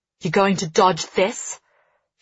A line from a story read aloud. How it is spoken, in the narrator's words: she snarls